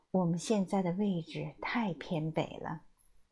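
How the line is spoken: Troubled, quiet. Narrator (Chinese): 马克思苦恼地小声说

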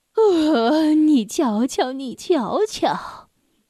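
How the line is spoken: Sighing, lamenting woman. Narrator (Chinese): 奥莫莱特太太唉声叹气道

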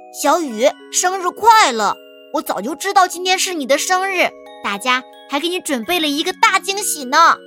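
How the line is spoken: Loud. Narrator (Chinese): 浩哲大声说

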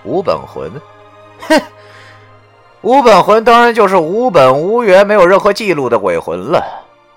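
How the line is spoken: Cold sneer, over phone. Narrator (Chinese): 电话那边的石觉明冷笑了一下，然后对我说道

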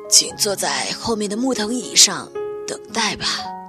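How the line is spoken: Hoarse voice after coughing. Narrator (Chinese): 屋里传出了几声咳嗽，随即一个沙哑的声音传了过来

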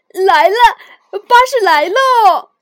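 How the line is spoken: Loud, excited. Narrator (Chinese): 小熊大声说

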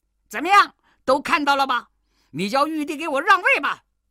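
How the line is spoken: Shouting. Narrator (Chinese): 悟空对佛祖叫道

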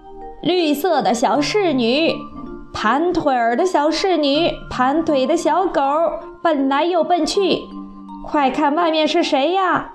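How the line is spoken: Fat toad calling. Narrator (Chinese): 一只肥大的蛤蟆立刻叫道

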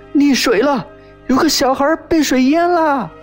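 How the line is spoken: Distant shout from outside. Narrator (Chinese): 外头喊

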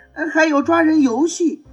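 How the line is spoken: Shouting. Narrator (Chinese): 波利大喊

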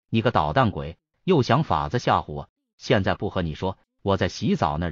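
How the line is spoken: Laughing scolding. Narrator (Chinese): 笑骂了起来

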